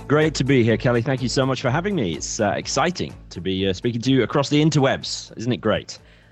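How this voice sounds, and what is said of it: Northern English accent. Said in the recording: “his lovely accent ... I'm from Bradford in the north of England originally”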